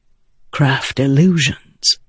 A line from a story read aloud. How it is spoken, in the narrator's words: Adolin said softly